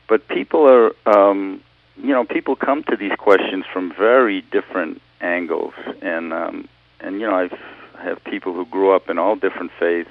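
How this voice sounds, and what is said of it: Boston Revere accent. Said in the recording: “my classic Boston Revere accent”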